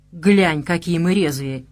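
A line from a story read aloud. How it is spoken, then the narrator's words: Grumbling. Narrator (Russian): буркнул я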